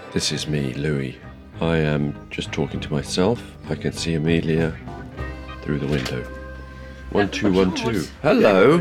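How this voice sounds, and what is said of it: Rough, unwell-sounding voice. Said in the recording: “sorry about my voice. I sound terrible. I'm coming off a cold.”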